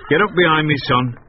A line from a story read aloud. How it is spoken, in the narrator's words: he said